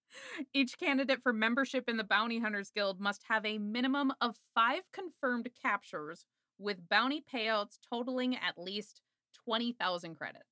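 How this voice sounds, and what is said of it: Condescending voice with many ups and downs. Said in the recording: “stuck in that voice ... People pay me for that voice ... it's super condescending ... I really just do my condescending voice ... It's a lot of ups and downs.”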